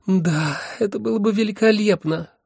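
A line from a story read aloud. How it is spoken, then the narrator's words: Sighing. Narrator (Russian): вздохнула первая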